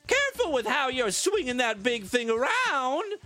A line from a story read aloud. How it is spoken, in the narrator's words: exclaimed Miss Daisy